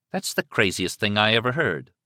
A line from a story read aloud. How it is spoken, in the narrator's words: Liz said flatly